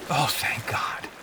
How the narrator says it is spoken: Hopeful whispered

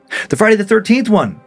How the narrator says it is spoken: Lena replied cheerfully

